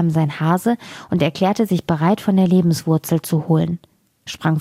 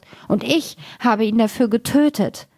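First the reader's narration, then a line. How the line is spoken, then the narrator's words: Loud wailing. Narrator (German): jammerte laut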